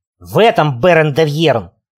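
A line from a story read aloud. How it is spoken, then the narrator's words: Barking shout. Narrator (Russian): рявкнул я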